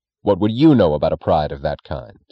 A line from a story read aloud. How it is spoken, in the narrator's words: Reardon asked sharply, as if the contempt of the second question could erase the confidence of the first